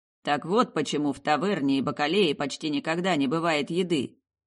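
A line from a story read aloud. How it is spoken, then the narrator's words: Muttered. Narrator (Russian): пробормотал он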